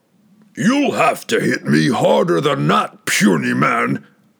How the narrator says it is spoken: it bellowed

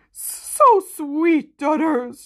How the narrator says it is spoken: she sobbed into his massive chest

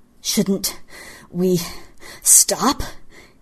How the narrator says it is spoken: panted

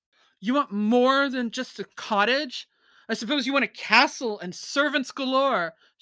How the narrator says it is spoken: shouted the fisherman

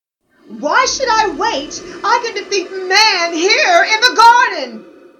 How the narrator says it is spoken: Willow shouted with a sense of arrogance

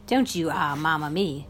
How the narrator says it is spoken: she said

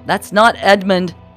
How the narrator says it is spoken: shouted abruptly

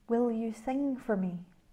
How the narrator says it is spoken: she said gently

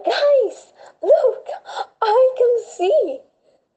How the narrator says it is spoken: screamed Kate, very excited and confused

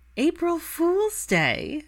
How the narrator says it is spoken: Daphne squealed as quietly as possible

